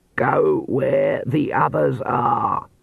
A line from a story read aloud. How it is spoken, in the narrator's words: Granny Weatherwax croaked